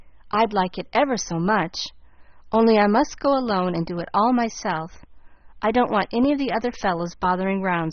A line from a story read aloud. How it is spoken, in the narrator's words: said Dan, taking to the new idea so kindly that he began to put on business airs already